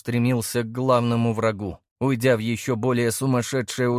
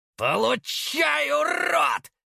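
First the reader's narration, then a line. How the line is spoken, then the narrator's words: Shouting at top of lungs. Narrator (Russian): закричал он во всю глотку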